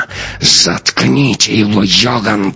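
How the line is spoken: Hissed. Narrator (Russian): прошипела она

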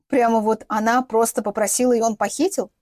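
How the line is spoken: Incredulous snort. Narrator (Russian): недоверчиво хмыкнул Глеб

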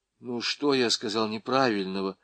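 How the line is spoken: Timid donkey question. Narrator (Russian): робко спросил осел

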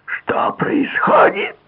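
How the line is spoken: Scream. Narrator (Russian): завопила Альскони

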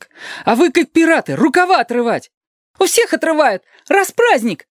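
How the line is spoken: Squeak from behind. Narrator (Russian): пискнул кто-то позади остальных

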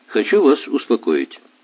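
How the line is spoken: Cheerful, over the phone. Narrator (Russian): бодро сказал он по телефону

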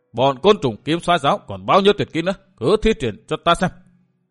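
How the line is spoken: Bursting into loud laughter. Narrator (Vietnamese): Độc Cô Thanh Tùng bật cười to

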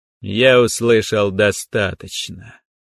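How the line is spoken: Bored tone. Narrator (Russian): скучным тоном заявил тренер Лонг

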